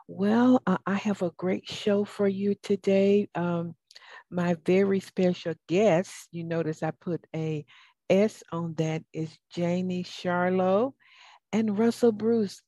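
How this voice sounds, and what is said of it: Southern American accent. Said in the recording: “Excuse my southern accent.”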